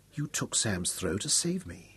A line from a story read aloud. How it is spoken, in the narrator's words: he murmured, his face pressed to hers